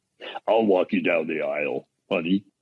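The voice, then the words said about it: Imitates another person's voice. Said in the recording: “premiere a new impression ... That was my impression”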